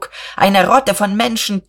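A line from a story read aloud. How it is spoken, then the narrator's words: Shouting. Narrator (German): schrie Buck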